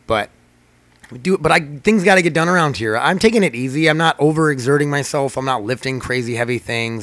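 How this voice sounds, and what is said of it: Scratchy, strained voice. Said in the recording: “My voice is getting super scratchy”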